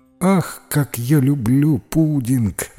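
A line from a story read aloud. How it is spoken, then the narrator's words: Sighing. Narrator (Russian): вздохнула миссис Майка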